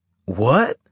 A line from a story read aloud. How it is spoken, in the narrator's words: Carlos asked, his voice cracking on a high note